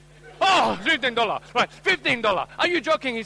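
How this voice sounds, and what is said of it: Put-on Asian accent, shocked. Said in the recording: “this time with an Asian accent... look shocked”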